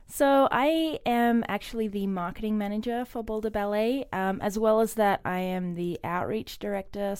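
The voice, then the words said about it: Noticeable non-American accent. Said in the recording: “you've got the best accent in the ballet.”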